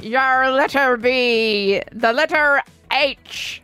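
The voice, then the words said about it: Put-on pirate accent. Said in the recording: “in pirate accent,”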